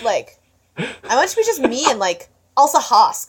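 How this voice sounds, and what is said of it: Slight Valley Girl accent. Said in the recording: “I gave him a little bit of a Valley Girl accent.”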